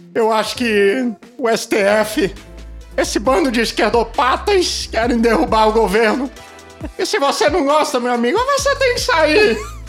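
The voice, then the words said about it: Agitated exhorting impression, voice rising higher. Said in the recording (Portuguese): “imitações ... o ... é um grande imitador ... ele não tem uma imitação dele que seja calmo ... ele tipo, nunca tá sempre calmo. Tá exortando ... E vai afinando a voz. e vai afinando a voz, né? Parece um adolescente na puberdade.”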